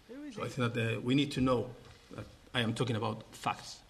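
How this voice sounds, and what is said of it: Andalusian Spanish accent speaking English. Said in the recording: “in his beautiful Andalusian accent”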